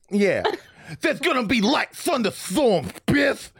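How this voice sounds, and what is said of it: Cartoonish Looney Tunes character voice. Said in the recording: “I'm just doing a Looney Tunes guy. ... This is a new guy. I've not done this guy. This is my iced tea impression.”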